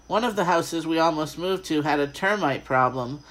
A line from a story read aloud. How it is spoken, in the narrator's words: I exclaimed and started to laugh